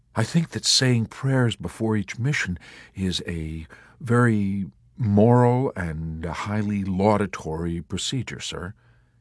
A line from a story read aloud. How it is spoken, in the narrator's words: offered timidly